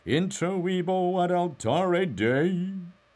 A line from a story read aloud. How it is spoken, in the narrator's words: intoned